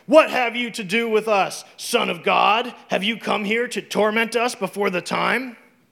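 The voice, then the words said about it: Menacing demon character voice. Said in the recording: “That's my demon voice.”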